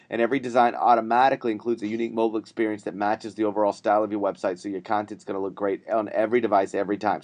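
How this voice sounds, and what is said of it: Sick, sniffly, under-the-weather voice. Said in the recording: “Do I sound as sick as I feel like I sound? ... You sound very sexy. ... You sound like Tony Bennett looks. ... I'm a little bit under the weather. ... I'm sniffling”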